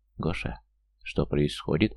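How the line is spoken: Very quiet. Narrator (Russian): Очень тихо, чтобы слышал только Ирбис, произнесла Дуня

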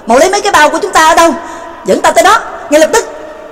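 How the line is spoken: Sudden, hurried loud shout. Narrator (Vietnamese): Trương Lập sực nhớ ra, vội lớn tiếng quát

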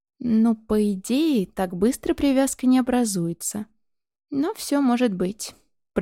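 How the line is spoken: Drawling. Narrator (Russian): протянул Шейр

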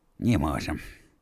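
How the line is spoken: Breathed out. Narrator (Russian): выдохнул Константин Львович

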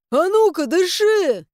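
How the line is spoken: Frightened bark. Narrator (Russian): Рявкую я испуганно

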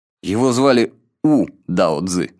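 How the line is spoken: Plain. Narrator (Russian): сказал я

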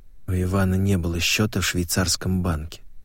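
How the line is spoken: Quiet. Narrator (Russian): тихо произнесла Вера

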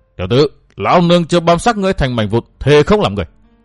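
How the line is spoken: Roaring. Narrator (Vietnamese): Thải y la sát gầm thét

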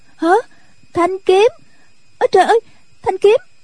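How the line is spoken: Alarmed cry. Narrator (Vietnamese): Nhạc Linh Sang kêu lên

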